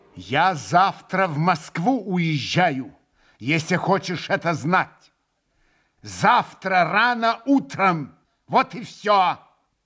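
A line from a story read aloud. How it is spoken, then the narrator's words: Angry, loud, deliberate. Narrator (Russian): Со злобою раздельно и громко вдруг проговорил он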